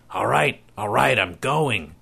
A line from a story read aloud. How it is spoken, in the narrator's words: he said through gritted teeth